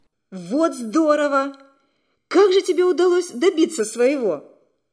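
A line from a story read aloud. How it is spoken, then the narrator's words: Excited exclamation. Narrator (Russian): Вера, услышав сообщение Нади, воскликнула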